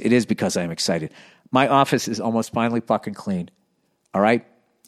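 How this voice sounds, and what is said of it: Excited, energetic speaking voice. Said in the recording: “hear the excitement in my voice”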